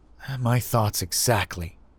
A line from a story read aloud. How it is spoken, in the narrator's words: I muttered